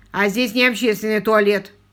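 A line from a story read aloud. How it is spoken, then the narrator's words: Bearded man barking. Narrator (Russian): рявкнул бородач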